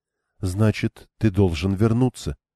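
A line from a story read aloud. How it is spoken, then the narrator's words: Calm speech. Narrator (Russian): проговорила спокойно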